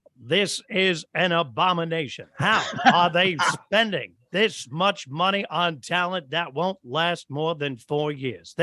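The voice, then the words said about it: Imitates another person's voice. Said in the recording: “the incredible Howard Cosell ... I'm not going to do my imitation, though I would love to, but I would love to hear yours because I know it's pretty good”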